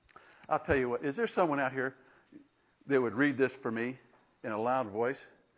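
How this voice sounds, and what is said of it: Strained, hoarse, fading voice. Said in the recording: “I'm losing my voice too”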